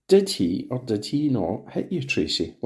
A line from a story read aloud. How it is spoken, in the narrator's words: Linklater asked gently